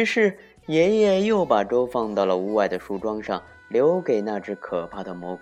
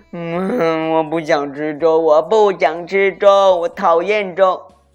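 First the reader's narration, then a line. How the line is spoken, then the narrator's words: Whiny cry, nose pinched. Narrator (Chinese): 小熊捏着鼻子，闭着眼睛叫起来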